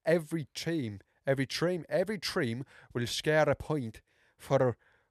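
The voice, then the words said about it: Put-on Irish accent with Welsh tinge. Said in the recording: “whatever this accent is. It's like, it's like a mix of really strong Irish and some a bit of Welsh sprinkled in there too”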